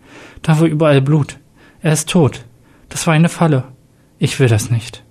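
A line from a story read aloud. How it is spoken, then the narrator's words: Sad voice. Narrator (German): antwortete Jack mit trauriger Stimme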